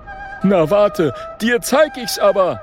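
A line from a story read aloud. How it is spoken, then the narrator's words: Brave shout. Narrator (German): ruft Oskar mutig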